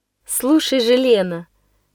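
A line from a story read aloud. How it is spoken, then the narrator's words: Serious solemn voice. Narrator (Russian): произнесла она еще более серьезным, торжественным голосом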